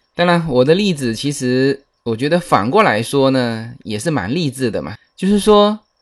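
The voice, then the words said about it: Fujian-accented non-standard Mandarin. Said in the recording (Chinese): “福建人在主播……福建人的普通话是不不太标准的……我有这个口音哈”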